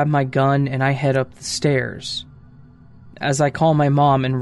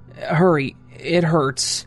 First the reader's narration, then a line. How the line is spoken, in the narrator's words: He pleaded and replied